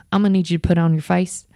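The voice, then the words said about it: Put-on accent quoting someone. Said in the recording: “I'm gonna stop doing the accent now because it's probably annoying everybody”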